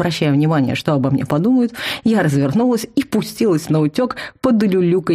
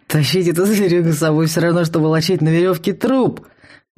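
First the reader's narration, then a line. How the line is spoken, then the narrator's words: Grumbling. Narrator (Russian): ворчал Вал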